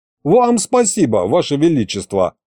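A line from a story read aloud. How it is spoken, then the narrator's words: Snorting. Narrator (Russian): хмыкнул я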